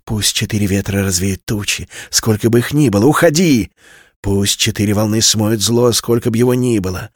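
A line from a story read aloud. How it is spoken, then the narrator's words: Whispered incantation. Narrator (Russian): прошептала Селина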